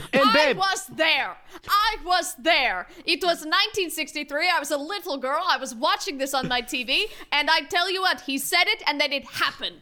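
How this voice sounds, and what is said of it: Slight Russian accent. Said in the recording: “you maybe sound a little Russian”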